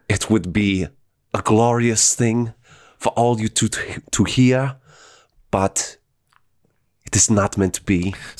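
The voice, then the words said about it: Imitates a German filmmaker's accented voice. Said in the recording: “We have Werner Herzog. ... I'm not even going to attempt that impression. That's pretty good.”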